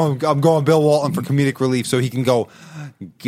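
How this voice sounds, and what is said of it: Usual voice. Nothing is said of it.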